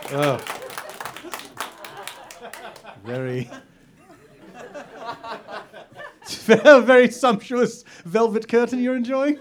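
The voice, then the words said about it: Heavy exaggerated French accent. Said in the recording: “his vowel-strangling French accent”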